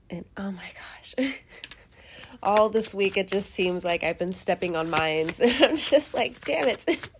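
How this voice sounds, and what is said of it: Congested voice from head cold. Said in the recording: “I also have a little bit of a head cold... It's literally just congestion and just, you know, coughing here and there... my voice sounds a little different right now”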